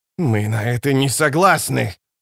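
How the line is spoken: Hissed. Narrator (Russian): прошипел Рад престол тени

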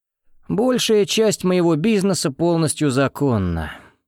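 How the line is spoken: Gloomy. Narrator (Russian): мрачно сказал Соколов

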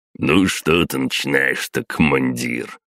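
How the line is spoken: Snorting with mouth full. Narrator (Russian): Хмыкнул, выгрызаясь зубами в огромный бутер

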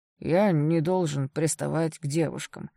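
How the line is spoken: Humiliated, through gritted teeth. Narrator (Russian): сквозь зубы выдавил Сейл и, явно чувствуя себя униженным

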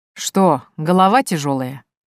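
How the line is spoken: Man's amused snort. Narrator (Russian): хмыкнул мужчина

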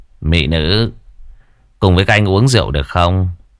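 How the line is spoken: Smiling, rough-looking man. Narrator (Vietnamese): một tên trông rất thô tráng liền mỉm cười nói

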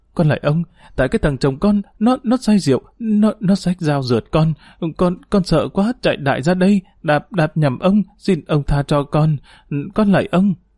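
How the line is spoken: Trembling. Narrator (Vietnamese): Tu run rẩy

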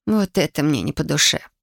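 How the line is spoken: Mutter. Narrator (Russian): пробурчала Масака

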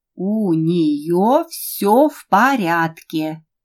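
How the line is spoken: Slow, firm, clipped. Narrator (Russian): Медленно и твердо, чеканя каждое слово, сказала Кристина

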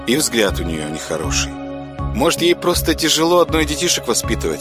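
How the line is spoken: Plain. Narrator (Russian): сказала Маринка

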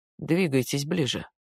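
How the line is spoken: Mumbling. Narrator (Russian): пробормотал Роберт

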